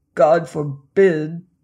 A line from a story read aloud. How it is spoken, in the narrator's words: I groaned